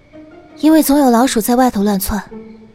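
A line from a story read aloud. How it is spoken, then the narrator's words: Helpless, flat. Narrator (Chinese): 赵盼儿无奈，只能淡淡道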